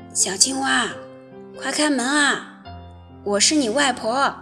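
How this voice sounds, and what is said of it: Old, aged-sounding voice. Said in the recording (Chinese): “苍老的声音”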